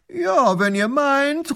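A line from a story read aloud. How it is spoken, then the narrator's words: Flattered calling back. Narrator (German): ruft der Großherzog geschmeichelt zurück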